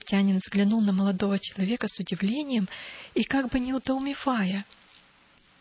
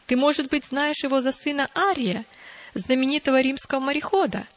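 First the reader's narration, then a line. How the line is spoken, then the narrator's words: Laughing. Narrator (Russian): шейк засмеялся и продолжал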